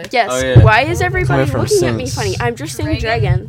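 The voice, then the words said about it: Ohio Midwestern accent. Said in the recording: “This is the first Ohio accent ... we're from Ohio, Cincinnati”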